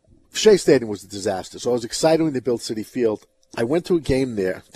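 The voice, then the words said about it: Brooklyn New York accent. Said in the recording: “I'm from Brooklyn, New York. ... my accent's not gone? No.”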